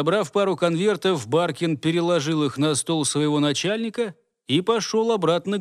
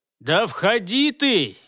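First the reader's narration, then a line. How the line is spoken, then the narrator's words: Bark. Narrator (Russian): гаркнул ему Дож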